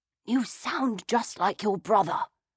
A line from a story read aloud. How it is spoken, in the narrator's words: I whispered back